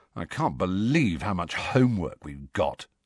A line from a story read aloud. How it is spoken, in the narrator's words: said Ron miserably